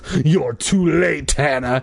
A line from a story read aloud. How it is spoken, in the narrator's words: he sneered